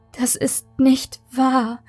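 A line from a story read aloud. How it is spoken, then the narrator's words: Whimpering. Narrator (German): Maike wimmerte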